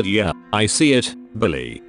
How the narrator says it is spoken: I said

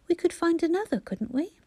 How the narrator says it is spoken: said anxiously

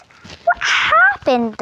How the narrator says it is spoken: all shouted at the same time

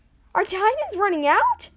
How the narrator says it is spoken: Ash and Jax screeched in unison

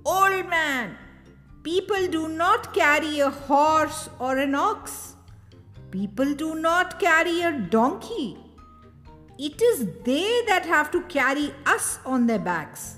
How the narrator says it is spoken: They called out

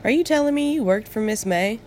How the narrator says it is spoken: giggling

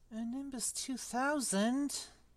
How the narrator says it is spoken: Ron moaned enviously

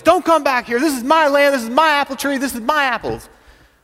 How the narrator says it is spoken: He yells

